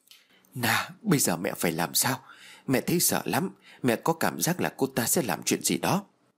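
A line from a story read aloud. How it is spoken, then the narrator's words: Fearful muttering. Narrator (Vietnamese): Trinh lẩm bẩm nói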